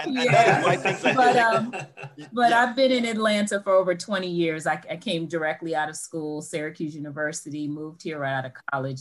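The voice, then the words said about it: New York accent. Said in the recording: “I'm a New Yorker, if you can't hear the accent.”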